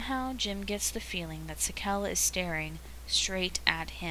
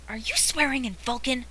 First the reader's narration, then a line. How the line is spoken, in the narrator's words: hisses Uhura